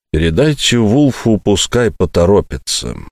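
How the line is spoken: Soft speech. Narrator (Russian): мягко сказал Болтон

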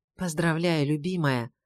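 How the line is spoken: Whispered greeting. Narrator (Russian): шепнул он, здороваясь

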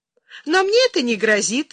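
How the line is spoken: Laughing. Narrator (Russian): засмеялась Юлия

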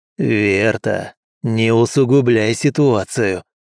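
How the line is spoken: Through gritted teeth. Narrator (Russian): процедил Мэйд

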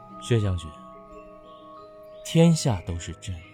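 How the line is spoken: Low voice, laughing. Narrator (Chinese): 顾元白压低声音笑了

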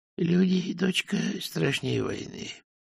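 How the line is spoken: Quiet, weak. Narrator (Russian): тихо сказал отец, закрывая глаза от слабости

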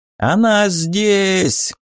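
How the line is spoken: Yelling with regional accent. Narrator (Russian): завопил знакомым шройтенским говором

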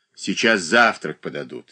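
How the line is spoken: Angry speech. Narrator (Russian): сердито проговорила Глафира Васильевна, тревожно расхаживавшая по своей комнате

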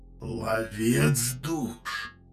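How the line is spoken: Creaky voice. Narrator (Russian): снова проскрипел Люкорев

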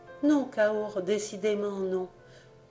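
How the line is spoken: Firmer tone. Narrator (French): d'un ton plus ferme

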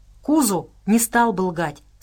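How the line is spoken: Plain. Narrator (Russian): сказал Хендер

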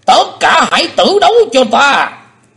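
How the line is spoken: Stunned, then loud roar. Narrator (Vietnamese): Âm ma giáo chủ sững đi một chập rồi gầm to

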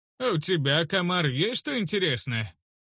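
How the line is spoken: Cheerful growl through teeth. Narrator (Russian): Улине весело усмехнулась, прорычав сквозь плотно сомкнутые зубы

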